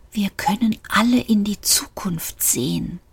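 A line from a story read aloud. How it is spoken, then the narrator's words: Terrified whisper. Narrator (German): flüsterte der Fahrstuhl, und es klang wie schreckliche Angst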